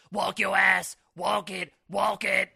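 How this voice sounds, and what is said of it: Croaky frog-like imitated voice. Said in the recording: “his frog-ass voice ... That's a great impression.”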